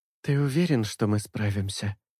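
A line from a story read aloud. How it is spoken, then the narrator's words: Quiet question. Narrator (Russian): тихо спрашивает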